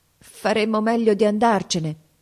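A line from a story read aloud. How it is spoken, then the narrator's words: Stammering. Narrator (Italian): balbettò Mason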